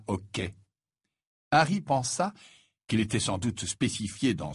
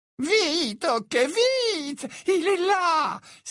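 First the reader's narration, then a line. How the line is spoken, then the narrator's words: Exclaimed. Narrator (French): s'écria Hepzibah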